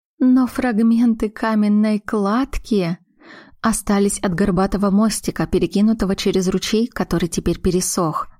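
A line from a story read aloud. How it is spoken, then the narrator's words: Sighing. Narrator (Russian): вздохнула Глаша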